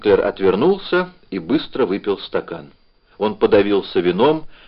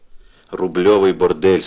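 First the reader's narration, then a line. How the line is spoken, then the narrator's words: Angry. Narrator (Russian): сказал зло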